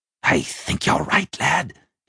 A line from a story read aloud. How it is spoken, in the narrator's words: he hissed